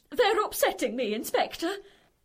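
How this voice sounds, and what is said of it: Northern English accent. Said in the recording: “You're suddenly talking northern”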